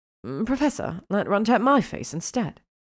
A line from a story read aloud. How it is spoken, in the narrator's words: Hermione said nervously